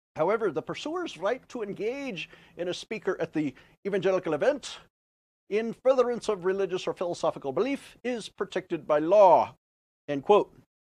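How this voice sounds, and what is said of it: Imitated Scottish accent mixed with Indian. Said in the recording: “Everything I just learned was from Sean Connery. Thank you to the early James Bond films for that. I think I mixed in my India accent a little bit.”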